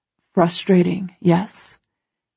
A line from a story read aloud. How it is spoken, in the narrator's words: He murmurs against my throat